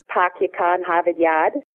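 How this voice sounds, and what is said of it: Boston accent, dropped R sounds. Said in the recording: “speakers of some English dialects, such as the Queen's English or the Boston accent, drop rhotics altogether in certain parts of words. For example, the famous phrase,”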